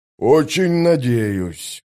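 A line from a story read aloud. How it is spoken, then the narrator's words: Gloomy grumble. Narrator (Russian): мрачно проворчал сапер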